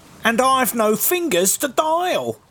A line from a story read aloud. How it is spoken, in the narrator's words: cried the reindeer